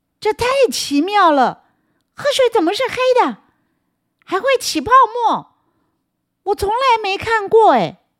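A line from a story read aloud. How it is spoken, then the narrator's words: Astonished loud shout. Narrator (Chinese): 他又惊讶的大叫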